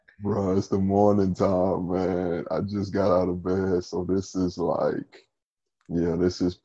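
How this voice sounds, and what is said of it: Very deep morning voice. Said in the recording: “deep voice ... I know that's your real voice, but at least start it a little higher and then ease into the deep ... prime deep voice hours”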